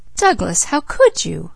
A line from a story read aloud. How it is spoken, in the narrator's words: exclaimed Leslie